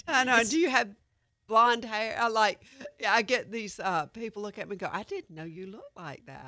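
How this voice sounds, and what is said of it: Distinctive regional accent. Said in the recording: “Who's that girl with that accent? ... You know you're famous for that, right?”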